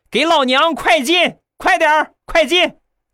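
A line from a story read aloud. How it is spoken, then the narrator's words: Child shouting loudly. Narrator (Chinese): 小家伙大声的喊道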